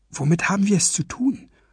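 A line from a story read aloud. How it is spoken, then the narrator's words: Whisper. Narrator (German): flüsterte Walküre zu Skaldagory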